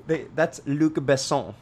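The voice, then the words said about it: Put-on French accent on a name. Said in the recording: “throwing your French accent around”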